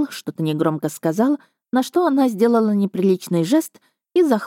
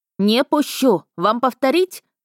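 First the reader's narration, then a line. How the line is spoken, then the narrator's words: Loud barking young woman. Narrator (Russian): на всю улицу рявкнула уже знакомая нам дочка сеньора Анджевича Миржана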